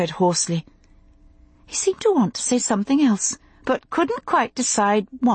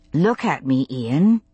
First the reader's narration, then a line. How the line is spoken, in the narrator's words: I said, as calmly as possible